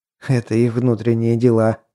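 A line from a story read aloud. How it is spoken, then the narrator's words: Laughing. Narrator (Russian): засмеялся я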